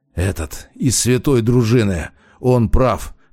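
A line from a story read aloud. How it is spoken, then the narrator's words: Hoarse rasp. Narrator (Russian): прохрипел Демьян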